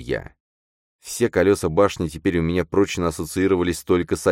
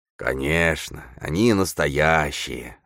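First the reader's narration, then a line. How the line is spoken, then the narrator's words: Relaxed drawl. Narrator (Russian): расслабленно протянул Бородатый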